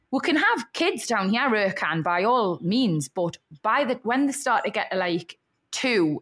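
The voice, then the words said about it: Northern regional accent. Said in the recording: “I want to be back up north because I want them to speak like me ... I can't have a house full of people who speak like you ... hate your accent”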